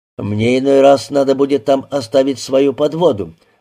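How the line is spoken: Gloomy. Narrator (Russian): мрачно сказал

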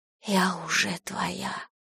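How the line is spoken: Whispered. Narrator (Russian): прошептала я

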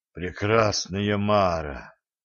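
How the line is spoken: Breathless after swallowing. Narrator (Russian): сглотнув, выдохнул ведун

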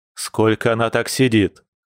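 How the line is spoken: Growled. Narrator (Russian): рыкнул мужчина

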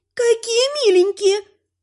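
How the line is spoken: Squeak. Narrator (Russian): пискнула Шиншилла

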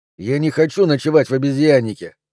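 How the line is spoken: Snapping retort. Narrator (Russian): огрызнулся Кристоф

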